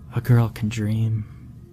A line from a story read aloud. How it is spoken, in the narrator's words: sighed